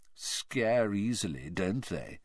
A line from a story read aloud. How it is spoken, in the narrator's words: he said lazily